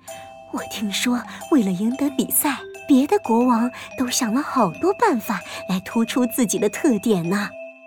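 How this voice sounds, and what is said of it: Quiet, secretive whisper. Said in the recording (Chinese): “神神秘秘的凑近国王的耳朵，小声说”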